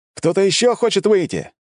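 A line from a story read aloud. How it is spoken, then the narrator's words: Shout to crowd. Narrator (Russian): крикнул я собравшимся на стенах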